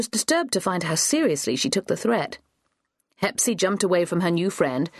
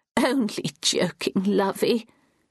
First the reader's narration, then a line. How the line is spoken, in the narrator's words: chuckled